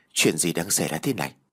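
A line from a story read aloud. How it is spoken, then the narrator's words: Sighing. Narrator (Vietnamese): cô thở dài rồi nói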